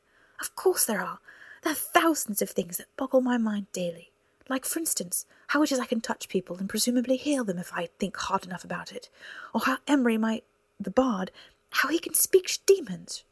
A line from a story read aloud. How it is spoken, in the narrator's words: shouted